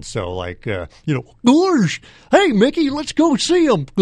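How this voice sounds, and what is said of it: Bad cartoon dog character voice. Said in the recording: “my Pluto impression ... Stupid, bad”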